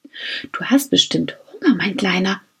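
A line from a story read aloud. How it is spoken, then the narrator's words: Whisper. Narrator (German): flüsterte Max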